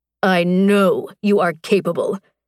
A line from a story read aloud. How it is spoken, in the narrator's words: he snarled